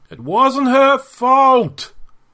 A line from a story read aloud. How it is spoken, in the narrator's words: he cried out to the Xenoc ghosts